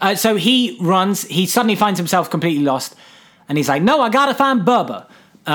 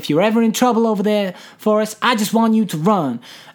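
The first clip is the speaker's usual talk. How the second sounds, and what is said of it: Jenny impression, Robin Wright. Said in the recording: “That's an all right Jenny impression. I'm happy with that Robin Wright impression.”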